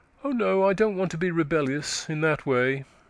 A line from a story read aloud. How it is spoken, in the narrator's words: she said sadly